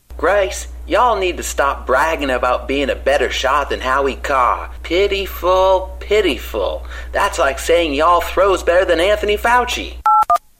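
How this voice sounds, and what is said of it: Fake Southern accent. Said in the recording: “That's the fakest Southern accent I've ever heard.”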